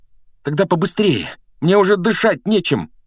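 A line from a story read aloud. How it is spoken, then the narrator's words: Strained, breathless squeeze. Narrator (Russian): выдавил Гарри, борясь со стеблем, обвившимся вокруг его груди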